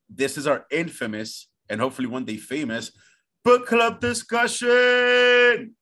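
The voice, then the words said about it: Imitates another person's voice. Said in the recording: “my impression of Oprah ... That was exactly the same.”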